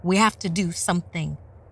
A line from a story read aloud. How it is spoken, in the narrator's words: yelled Luke